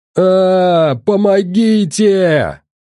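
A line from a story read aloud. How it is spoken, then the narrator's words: Screaming. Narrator (Russian): заорал Толян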